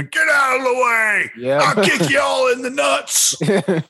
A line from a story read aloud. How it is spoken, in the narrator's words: screaming